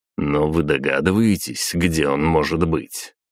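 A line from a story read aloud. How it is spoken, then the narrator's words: Grunting. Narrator (Russian): хмыкнул я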